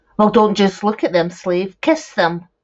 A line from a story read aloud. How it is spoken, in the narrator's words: barked